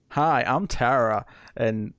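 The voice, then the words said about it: Put-on American accent. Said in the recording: “I'll do an American accent. ... Nailed it.”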